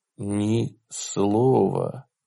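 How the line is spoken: Whisper. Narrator (Russian): прошептал

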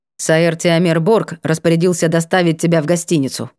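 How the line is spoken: Reluctant mutter. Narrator (Russian): нехотя буркнул Вольпан

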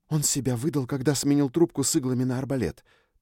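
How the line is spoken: Whisper while running. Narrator (Russian): прошептала Триш, подбегая ко мне

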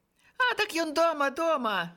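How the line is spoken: Children laughing. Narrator (Belarusian): засмяяліся нечага дзеці

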